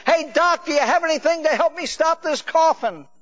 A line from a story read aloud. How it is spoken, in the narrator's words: screaming